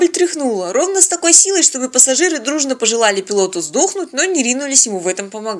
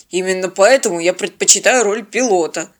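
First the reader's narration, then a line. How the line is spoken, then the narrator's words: Embarrassed grumble. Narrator (Russian): смущенно проворчал парень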